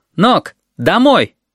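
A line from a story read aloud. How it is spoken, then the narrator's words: Shouted through window. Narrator (Russian): Сережа крикнул в открытую форточку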